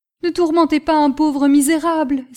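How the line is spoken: Heartrending cry. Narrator (French): s'écria-t-il d'une voix déchirante

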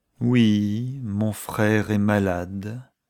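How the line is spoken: Slow and reluctant. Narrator (French): concéda Miss Aldis, lentement et comme à regret

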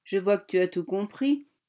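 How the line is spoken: Man sneering. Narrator (French): ricana l'homme

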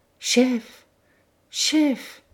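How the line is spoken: Choked stammer. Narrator (French): balbutia Gourel d'une voix étranglée

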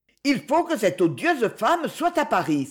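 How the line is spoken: Exclaiming. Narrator (French): s'écria-t-elle

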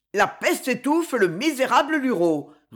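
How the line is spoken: Roaring while running. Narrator (French): rugissait Cogolin tout en courant

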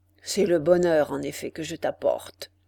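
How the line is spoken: Muffled male voice. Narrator (French): dit l'homme d'une voix sourde

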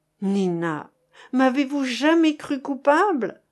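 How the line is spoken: Anguished sobbing. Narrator (French): répéta-t-il dans un sanglot où passait son martyre de 10 années et toute la douleur du moment présent

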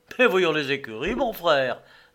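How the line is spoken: Cheerful reply. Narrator (French): répondit gaiement Philippe

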